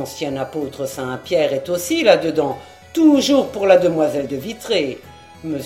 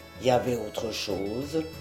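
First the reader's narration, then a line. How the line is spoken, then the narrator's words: Murmur. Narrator (French): murmura-t-il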